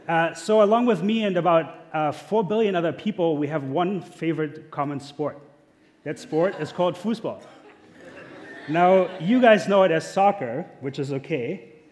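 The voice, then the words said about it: German accent. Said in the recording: “I'm German. I am. That's where my accent's from.”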